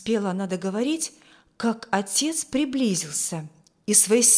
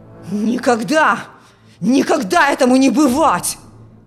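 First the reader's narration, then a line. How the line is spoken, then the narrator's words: Furious father shouting. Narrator (Russian): В ярости кричал отец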